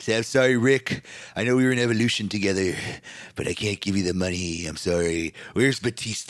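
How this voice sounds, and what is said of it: Triple H impression. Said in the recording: “me and my impersonations”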